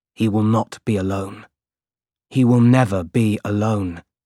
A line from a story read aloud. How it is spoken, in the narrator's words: said